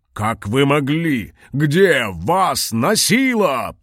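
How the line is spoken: Furious roar. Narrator (Russian): проревел, багровее от гнева

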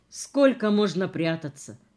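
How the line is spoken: Businesslike tone. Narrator (Russian): сказал совсем другим деловым тоном

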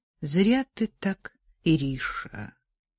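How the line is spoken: Soft, gentle. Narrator (Russian): мягко сказал Егор Ильич

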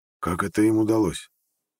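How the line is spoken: Mumbling. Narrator (Russian): пробормотал Петр Крамер

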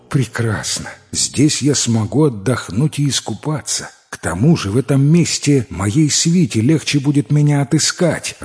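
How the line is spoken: Joyful tsar exclaiming. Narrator (Russian): радостно воскликнул царь

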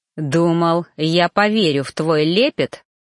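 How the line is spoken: Said coldly. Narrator (Russian): холодно произнес

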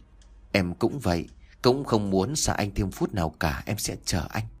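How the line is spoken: Happy soft murmur. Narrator (Vietnamese): Linh hạnh phúc lắm, thủ thỉ

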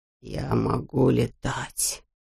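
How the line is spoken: Whisper. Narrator (Russian): прошептал он

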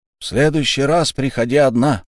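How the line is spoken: Loud. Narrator (Russian): громко сказал Тасиру

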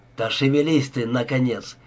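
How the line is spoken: Sharp shout. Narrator (Russian): прикрикнул на него Бит

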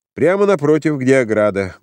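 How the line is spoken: Brisk cheerful speech. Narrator (Russian): бодро сказал человек

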